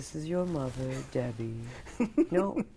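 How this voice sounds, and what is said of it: Impression of Debbie, slight English accent. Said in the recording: “You do your mother with a slight English accent ... That's how she talks.”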